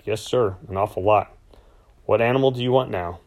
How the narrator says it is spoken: my voice steady when I said back

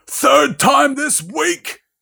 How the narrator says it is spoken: he roared across the table

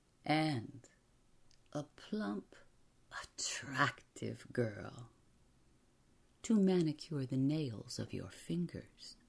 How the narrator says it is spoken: Someone in the crowd giggled

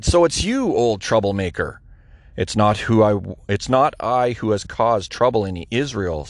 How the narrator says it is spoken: said Elijah

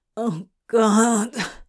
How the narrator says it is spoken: Crowley groaned into his inner elbow

